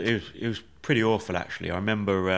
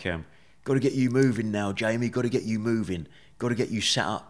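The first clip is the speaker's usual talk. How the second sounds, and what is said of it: Imitated Essex nurse accent. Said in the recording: “the nurse in Essex, and I'm not very good at the accent”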